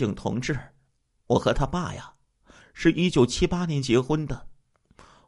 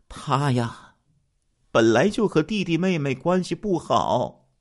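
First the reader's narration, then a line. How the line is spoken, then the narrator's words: Long sigh. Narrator (Chinese): 于秀莲长叹了一声说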